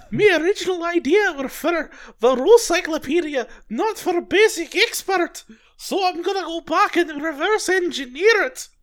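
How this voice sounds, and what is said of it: Put-on imagined accent. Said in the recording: “I always imagine he's like got an accent, even though I think he's from like Connecticut”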